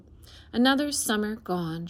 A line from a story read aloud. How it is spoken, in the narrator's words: she sighed